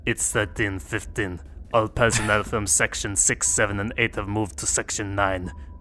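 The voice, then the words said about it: Put-on Russian accent. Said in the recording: “Russian accent? ... No, that's not very Russian. It's more like, da.”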